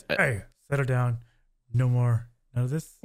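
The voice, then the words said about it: Stern dad voice. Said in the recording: “really stern voice ... dad voice”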